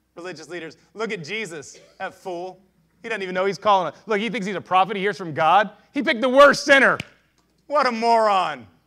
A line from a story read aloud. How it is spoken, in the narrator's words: scoffed and they said